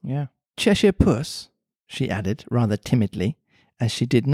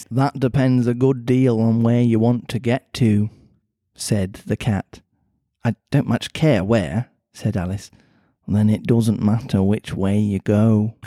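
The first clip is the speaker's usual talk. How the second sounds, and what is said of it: Cat character in Mancunian accent. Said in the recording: “I need a cat voice. ... It's a pretty Mancunian-sounding accent. ... he sounds like a Gallagher brother. ... Just do it Mancunian or something like that.”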